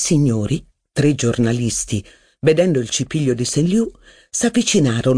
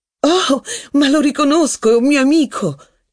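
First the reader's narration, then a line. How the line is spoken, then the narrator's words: Exclamation. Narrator (Italian): esclamò Rachel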